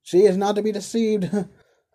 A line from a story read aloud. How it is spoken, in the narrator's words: observed the carrier, laughing